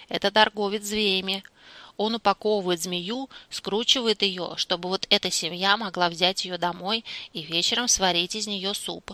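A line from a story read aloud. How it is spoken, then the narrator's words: Calm. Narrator (Russian): спокойно отвечала Ахонг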